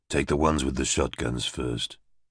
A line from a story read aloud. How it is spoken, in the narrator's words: he whispered